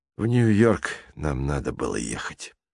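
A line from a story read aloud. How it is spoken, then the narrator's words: Sighing. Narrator (Russian): вздохнул Белокурый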